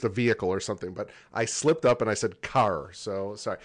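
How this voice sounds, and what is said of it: Pennsylvania accent with New York touch. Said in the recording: “You sound like Pennsylvania with a touch of New York.”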